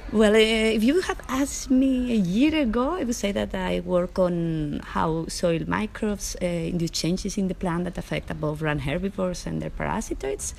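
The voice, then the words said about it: Spanish accent in English. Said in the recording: “as my accent sounds, I come from Spain”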